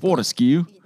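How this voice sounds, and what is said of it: Put-on Australian accent, one word. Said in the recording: “Can you say Fortescue with an Australian accent? ... Nice. Actually, for just a one word, that was great.”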